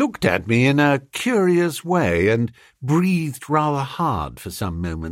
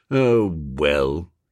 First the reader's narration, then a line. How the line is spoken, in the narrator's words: he said in a resigned sort of voice